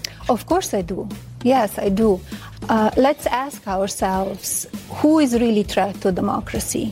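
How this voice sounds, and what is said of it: Noticeable accent. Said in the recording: “If you recognize the voice there, the accent, that is the former First Lady Melania Trump”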